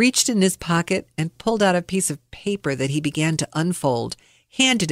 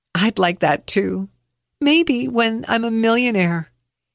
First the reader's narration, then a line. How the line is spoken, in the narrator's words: I chuckled and said